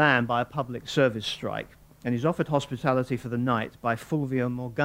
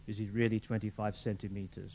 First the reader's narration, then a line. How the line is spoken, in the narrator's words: She murmured